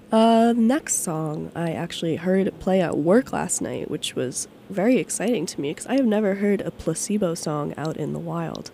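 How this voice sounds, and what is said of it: Congested, nasal voice. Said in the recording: “I've been congested for like 2 weeks now, and I've had a cough for like a million years, so that's why I sound, something ... my voice is very nasally today”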